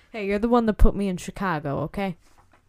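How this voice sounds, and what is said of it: Put-on weird mobster-style street accent. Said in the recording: “No one made you talk like this... It sounds like they're selling salami on the sidewalk... a weird accent... you just sound like, hey, I got arrested, I did 10 years in Rikers for selling illegal meats”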